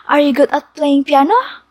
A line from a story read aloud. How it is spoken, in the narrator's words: Juni asked excitedly